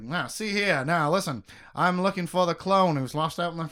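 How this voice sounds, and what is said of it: Fake old-timey New York accent. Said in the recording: “he talks like that weird fake New York accent”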